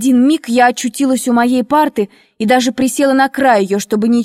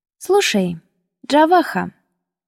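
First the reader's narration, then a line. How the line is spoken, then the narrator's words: Calm, slightly conciliatory. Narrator (Russian): спокойно, чуть-чуть примирительно произнесла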